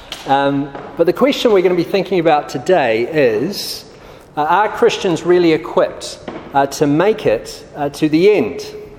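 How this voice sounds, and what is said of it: New Zealand accent. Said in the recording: “I'm from New Zealand, hence the strange accent.”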